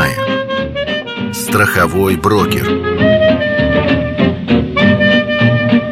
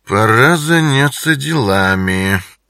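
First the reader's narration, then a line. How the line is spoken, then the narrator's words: Purring. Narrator (Russian): промурлыкал он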